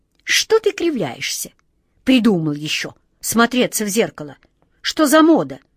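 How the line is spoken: Angry shout. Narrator (Russian): сердито прикрикнул на него волшебник Алеша

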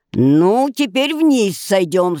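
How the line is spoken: Spiteful. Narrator (Russian): сказала она, злобно поглядывая на бедную девушку

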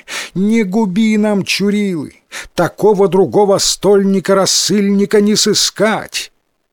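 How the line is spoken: Pleading chorus of nobles. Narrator (Russian): Взмолились и князь, и все бояре

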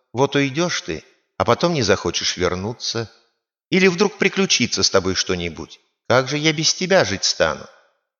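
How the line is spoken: Affectionate. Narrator (Russian): фея ... говорит ему ласково

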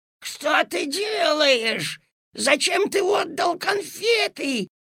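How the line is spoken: Desperate shout. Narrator (Russian): отчаянным голосом закричала госпожа Жадность

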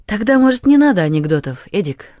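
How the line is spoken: Cheerful. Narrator (Russian): Таня сказала весело

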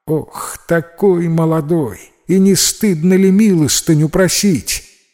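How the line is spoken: Surprised exclamation. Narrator (Russian): Как увидела нищего Сандугач, так воскликнула

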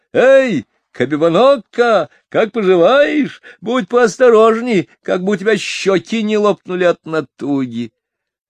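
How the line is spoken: Laughing shout. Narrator (Russian): Он рассмеялся и крикнул

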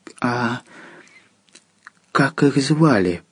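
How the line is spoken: Young monk's whisper. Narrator (Russian): прошептал юный монах

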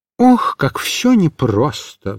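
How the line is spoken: Sighing. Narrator (Russian): вздохнул Микиш

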